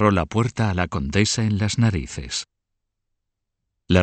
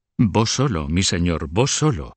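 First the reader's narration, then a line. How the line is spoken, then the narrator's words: Curator exclaiming with renewed energy. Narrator (Spanish): el curador, recobrando su energía, exclamó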